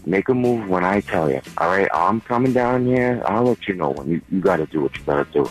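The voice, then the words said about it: Strong Boston accent. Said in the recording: “a good Boston accent”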